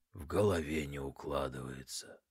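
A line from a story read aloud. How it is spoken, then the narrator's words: Quiet. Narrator (Russian): полковник осуждающе покачал головой и негромко произнес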